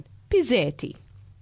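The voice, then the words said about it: Put-on Italian accent. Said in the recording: “my best Italian accent.”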